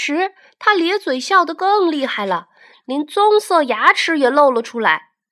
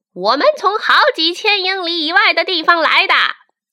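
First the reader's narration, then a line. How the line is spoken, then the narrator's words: Calling downward. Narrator (Chinese): 蜈蚣朝下叫着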